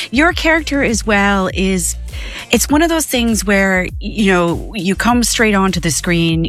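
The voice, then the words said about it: Canadian-Irish hybrid accent. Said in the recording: “Your accent is so gorgeous though, this like hybrid that you've got ... It's a Canadian-Irish mix”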